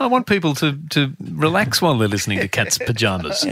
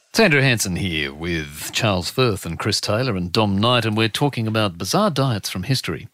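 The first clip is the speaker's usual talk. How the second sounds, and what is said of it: Smooth late-night radio announcer voice. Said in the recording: “in your best Smooth FM voice. It was like Cameron Dunham talking about corpulence and diets”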